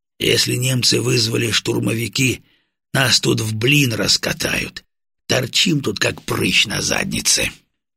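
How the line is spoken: Quiet. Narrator (Russian): тихонько сказал полковник

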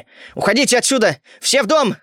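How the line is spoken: Shouting. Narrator (Russian): закричал я

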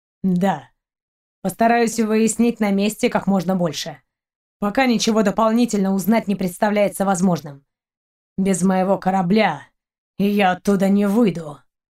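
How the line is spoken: Muffled growl. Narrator (Russian): глухо прорычал капитан

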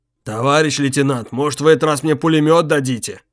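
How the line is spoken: Deep bass voice. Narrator (Russian): Вновь забасил Бочкин

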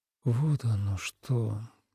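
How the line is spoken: Thoughtful. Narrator (Russian): задумчиво произнес Тобиас

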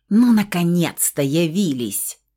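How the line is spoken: Irritated snort. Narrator (Russian): раздраженно фыркнула графиня, по всей видимости, совершенно не обрадованная семейной встречей

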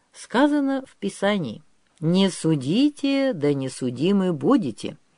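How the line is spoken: Plain. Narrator (Russian): ответил Григорий

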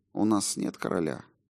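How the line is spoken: Soft. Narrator (Russian): мягко произнес отец Харрингтон

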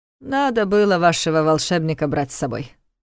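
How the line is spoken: Snort. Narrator (Russian): хмыкнул Карл

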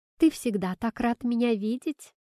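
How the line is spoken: Laughing. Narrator (Russian): засмеялась она

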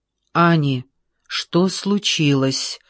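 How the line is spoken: Plain. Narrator (Russian): спросил Джордж

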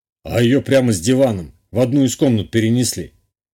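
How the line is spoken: Snorting chuckle. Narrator (Russian): хмыкнул Гунбарь

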